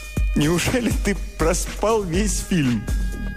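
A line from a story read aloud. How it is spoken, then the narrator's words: Laughing, cheerful reproach. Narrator (Russian): Сквозь смех она выговорилась с веселым укором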